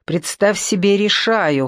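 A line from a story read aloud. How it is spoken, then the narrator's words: Snapping retort. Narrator (Russian): хотел огрызнуться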